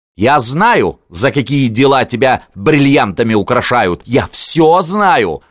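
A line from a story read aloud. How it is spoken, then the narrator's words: Yelling. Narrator (Russian): орала Варька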